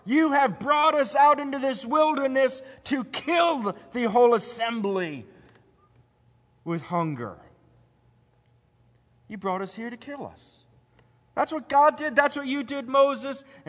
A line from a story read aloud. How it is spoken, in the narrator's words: And so they cried out